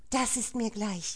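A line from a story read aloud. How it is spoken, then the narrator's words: Hissing angrily. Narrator (German): fauchte Jeanne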